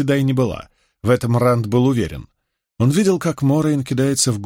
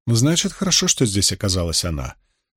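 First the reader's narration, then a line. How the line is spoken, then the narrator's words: Calm reply. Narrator (Russian): спокойно ответила Морейн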